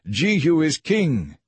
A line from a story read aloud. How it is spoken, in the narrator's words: They shouting